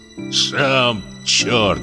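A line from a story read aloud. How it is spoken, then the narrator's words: Grumbling. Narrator (Russian): проворчал Поликарп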